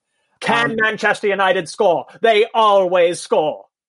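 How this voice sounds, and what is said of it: Posh football commentator impression. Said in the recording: “my Clive Tilsley impression... That is horrifying, and it sounds like a member of the royal family was doing commentary”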